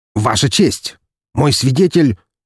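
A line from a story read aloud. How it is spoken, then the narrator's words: Begins, cut off. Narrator (Russian): начал было Стрельцов, но оказался тут же прерван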